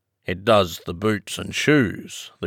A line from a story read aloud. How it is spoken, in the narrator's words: the Gryphon replied very solemnly